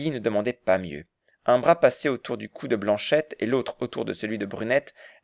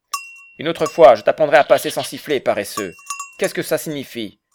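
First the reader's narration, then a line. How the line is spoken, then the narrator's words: Old man shouting. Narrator (French): lui cria le vieux de l'Alpe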